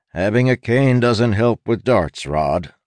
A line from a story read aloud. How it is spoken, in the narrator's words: Lem said